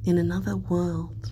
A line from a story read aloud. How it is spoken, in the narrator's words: Commodus says dreamily